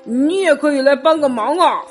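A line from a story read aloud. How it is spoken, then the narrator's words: Lion shouting. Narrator (Chinese): 狮子叫道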